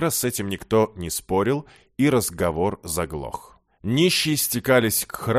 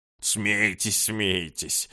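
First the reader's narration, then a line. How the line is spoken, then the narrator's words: Offended old man grumbling. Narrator (Russian): обиженно проворчал старик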